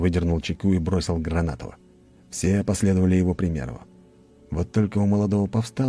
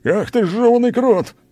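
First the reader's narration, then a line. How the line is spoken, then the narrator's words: Yelled. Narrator (Russian): заорал Клим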